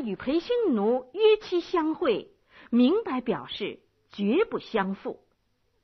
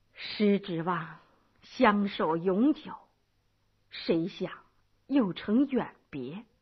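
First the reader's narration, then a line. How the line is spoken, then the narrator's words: Sighing with emotion. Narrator (Chinese): 白乐天感叹道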